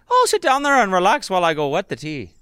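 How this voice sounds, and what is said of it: Put-on Irish accent. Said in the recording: “show off your fancy Irish accent”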